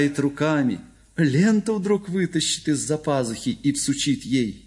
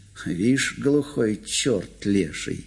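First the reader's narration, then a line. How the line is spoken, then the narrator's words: Group muttering under breath. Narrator (Russian): пробормотали все вполголоса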